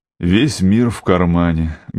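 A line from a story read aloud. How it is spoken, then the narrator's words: Sad exhale. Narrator (Russian): грустно выдохнул я, потому как это мне тоже было знакомо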